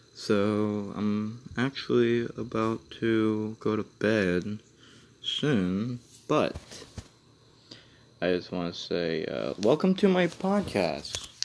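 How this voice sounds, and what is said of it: Low, quiet, tired voice. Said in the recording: “my voice is kind of low because everybody's asleep ... I'm, like, really tired”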